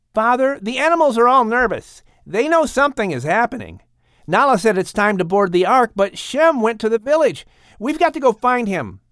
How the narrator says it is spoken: Ham said urgently, worried for his brother

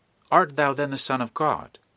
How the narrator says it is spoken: Eagerly catching at this, which was not sufficiently explicit for them, they all said

